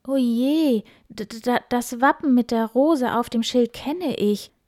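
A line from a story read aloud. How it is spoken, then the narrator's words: Shocked stammering. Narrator (German): stammelte mit weit aufgerissenen Augen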